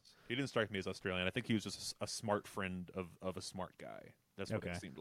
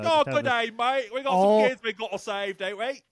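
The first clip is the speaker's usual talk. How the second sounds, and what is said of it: Put-on Australian accent. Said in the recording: “they brought in an Australian doctor ... it's a very similar accent”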